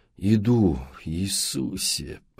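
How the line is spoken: Grumbling. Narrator (Russian): проворчал Мэтт

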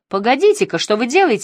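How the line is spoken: Angry exclamation. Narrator (Russian): сердито воскликнула

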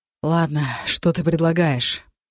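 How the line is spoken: Noisy exhale. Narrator (Russian): Дектон шумно выдохнул

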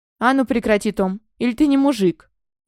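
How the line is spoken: Deafening bark. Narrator (Russian): Оглушительно рявкнул мой вечно спокойный отец

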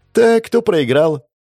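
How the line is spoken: Cheerful. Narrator (Russian): Весело обратилась к нам Террия

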